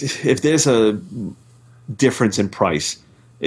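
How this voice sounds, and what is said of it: Usual voice. Nothing is said of it.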